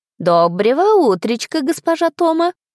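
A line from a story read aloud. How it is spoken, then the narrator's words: Joyful greeting. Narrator (Russian): радостно поприветствовала она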